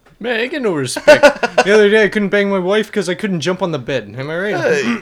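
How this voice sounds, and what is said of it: Rodney Dangerfield impression. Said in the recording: “going to do a Rodney Dangerfield impression. ... Midget Rodney Dangerfield.”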